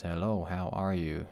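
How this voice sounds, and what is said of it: Poor impression of speech-synthesizer voice. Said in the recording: “That was a terrible impersonation”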